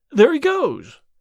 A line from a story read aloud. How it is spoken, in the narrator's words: cried Hall Pycroft